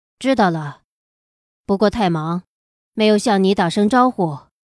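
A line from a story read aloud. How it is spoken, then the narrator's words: Flat indifferent tone. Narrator (Chinese): 小七淡淡的道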